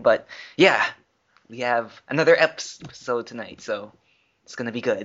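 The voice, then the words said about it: Strained, worn-out voice. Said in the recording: “I'm feeling a little under the weather and my voice is screwed ditto. From singing”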